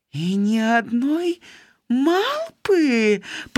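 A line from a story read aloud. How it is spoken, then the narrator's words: Moaning. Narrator (Belarusian): прыстагнала Чыта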